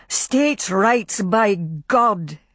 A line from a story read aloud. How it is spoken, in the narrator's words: shouted over and over